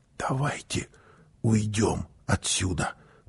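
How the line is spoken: Whisper. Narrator (Russian): прошептала мама

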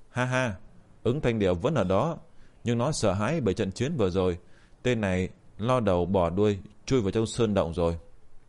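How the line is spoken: Smiling, amused. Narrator (Vietnamese): mỉm cười

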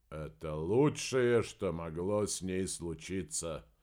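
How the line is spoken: Mutter. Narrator (Russian): пробормотал эпитафию Помпилио

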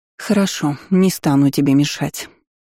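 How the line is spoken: Offended sigh. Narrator (Russian): обиженно вздохнула внучка старейшины

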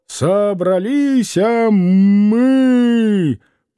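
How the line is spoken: Roaring into ear. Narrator (Russian): проревел он в ухо Клима

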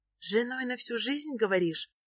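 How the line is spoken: Thoughtful repetition. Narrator (Russian): Задумчиво повторяет Загорская

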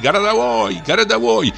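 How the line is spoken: Terrified group shouting. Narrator (Russian): в ужасе кричали

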